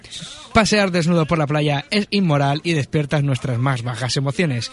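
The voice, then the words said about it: News anchor voice. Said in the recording (Spanish): “voz de locutor de informativos”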